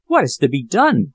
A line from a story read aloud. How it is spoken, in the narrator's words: cried Peterkin